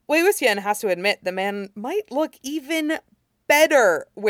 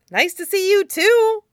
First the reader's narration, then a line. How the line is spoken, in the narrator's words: he exclaims